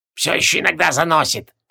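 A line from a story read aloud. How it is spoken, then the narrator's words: Slightly embarrassed mumble, foreman. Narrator (Russian): слегка смущенно пробурчал бригадир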